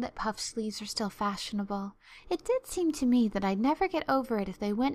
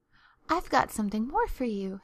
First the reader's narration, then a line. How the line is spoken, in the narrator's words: said Diana breathlessly